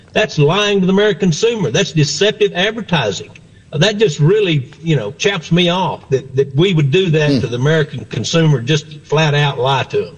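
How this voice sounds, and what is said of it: Texas accent. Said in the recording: “you can tell by the accent. Texas guy, right?”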